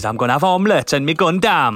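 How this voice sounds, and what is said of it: Put-on Welsh accent. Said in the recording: “Ryuji's Welsh... go back to Welsh”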